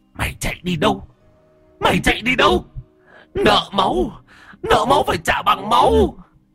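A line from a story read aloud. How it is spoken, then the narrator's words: Hissing shriek. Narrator (Vietnamese): Bà ngoại rít lên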